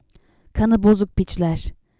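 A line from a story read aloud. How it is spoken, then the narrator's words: Wife hissing through teeth. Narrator (Turkish): diye tıslar gibi dişlerinin arasından konuştu Harun'un eşi Elisheba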